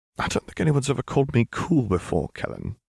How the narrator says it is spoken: giggled softly

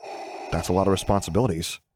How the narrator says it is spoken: Luke muttered faintly

